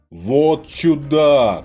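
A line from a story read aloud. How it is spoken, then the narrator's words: Shout. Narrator (Russian): кричал в собрании Михаил, митрополит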